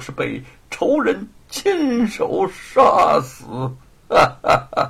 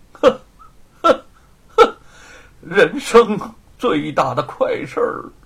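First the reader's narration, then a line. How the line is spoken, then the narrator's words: Sinister laugh. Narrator (Chinese): 罗万金阴笑着说出了最后一句话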